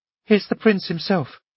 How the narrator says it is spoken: she said in a hurried whisper

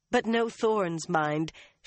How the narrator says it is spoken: she added with a laugh

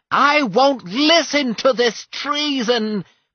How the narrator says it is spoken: cried the assigner

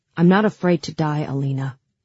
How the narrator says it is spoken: he said in that cold, steady voice that seemed so alien to me

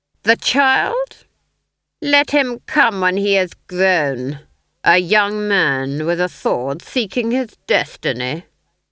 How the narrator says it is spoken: the Duke sneered

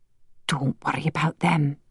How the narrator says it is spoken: she whispered

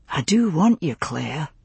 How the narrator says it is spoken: Jamie said softly

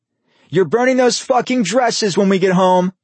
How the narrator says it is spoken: Vincent screamed over the clicking of their heels hitting pavement

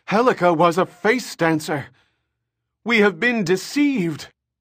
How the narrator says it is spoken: an appalled honored Matre cried

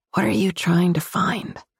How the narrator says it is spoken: Voice croaky with sleep, whisper

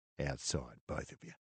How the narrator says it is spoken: he'd murmured under his breath

